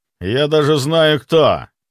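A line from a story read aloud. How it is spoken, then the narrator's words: Through gritted teeth. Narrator (Russian): Процедил сквозь зубы Глеб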